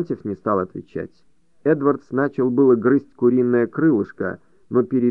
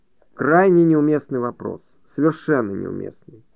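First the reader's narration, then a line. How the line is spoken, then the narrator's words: Embarrassed grumble. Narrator (Russian): Эдвард снова залился краской, проворчал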